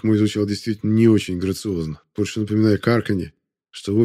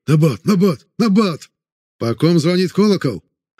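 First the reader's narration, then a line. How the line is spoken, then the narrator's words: Angry barking. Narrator (Russian): Рявкнул на него я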